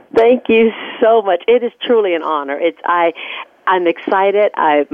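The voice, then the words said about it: Quivering, emotional voice. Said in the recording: “My voice is quivering because it's the emotion and the excitement of sharing.”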